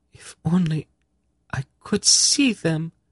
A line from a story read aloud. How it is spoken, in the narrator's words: Saradis sobbed